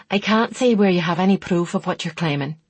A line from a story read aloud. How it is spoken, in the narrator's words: she interrupted sharply